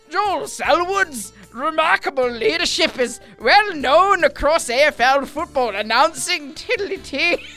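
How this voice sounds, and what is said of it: Put-on Scottish accent, verging Irish. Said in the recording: “Irish. ... Oh, is that Scottish? ... I realised I went too Irish. ... Okay, so that was Scottish.”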